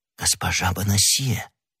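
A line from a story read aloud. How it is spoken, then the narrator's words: Whispered. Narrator (Russian): прошептал Д'Артаньян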